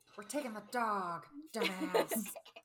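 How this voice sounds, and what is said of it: Impression of Jennifer Coolidge. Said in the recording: “Is Jennifer Coolidge, is that her name? Your impression is very good.”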